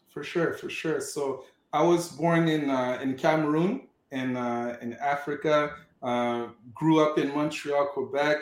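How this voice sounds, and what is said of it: Non-native accent. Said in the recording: “in podcast land, ... has an accent, but it's because ... is not a native to Montreal, Canada”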